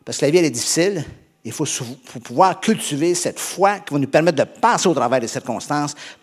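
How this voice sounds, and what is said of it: Québécois French accent. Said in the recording (French): “Est-ce que ça va pour l'accent québécois?”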